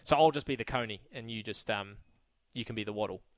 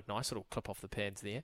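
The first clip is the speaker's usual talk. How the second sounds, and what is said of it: Imitated cricket commentator voice. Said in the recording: “I was going to put on a Brian Waddle impression, but I always just default into a Richie Beno ... they sort of have that that sort of voice up here ... that's a bit more Richie Beno ... Brian's a little bit more New Zealand ... that's a terrible impression”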